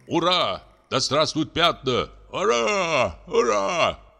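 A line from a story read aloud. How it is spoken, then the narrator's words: Two voices shouting. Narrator (Russian): крикнули Джон Лунд и Том Бекас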